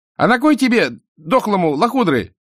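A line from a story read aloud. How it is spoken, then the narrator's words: Rude boy shouting from behind. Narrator (Russian): крикнул сзади неделикатный отрок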